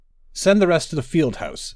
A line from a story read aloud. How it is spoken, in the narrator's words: Sandrasa said